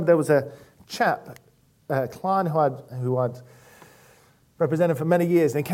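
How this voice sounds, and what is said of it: Usual voice. Nothing is said of it.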